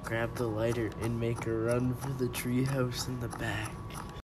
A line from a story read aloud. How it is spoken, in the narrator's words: whispers Jimmy